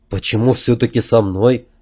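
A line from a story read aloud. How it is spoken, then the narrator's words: Quiet question. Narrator (Russian): спросил я негромко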